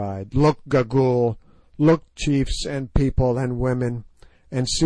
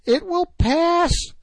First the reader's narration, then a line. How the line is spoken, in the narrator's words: she cried